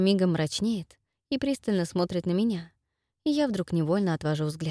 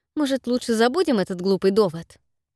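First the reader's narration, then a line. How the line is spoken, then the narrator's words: Sharp curt retort. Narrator (Russian): резко бросаю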